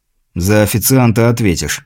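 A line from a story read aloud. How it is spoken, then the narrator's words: Grumble. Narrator (Russian): буркнул наемник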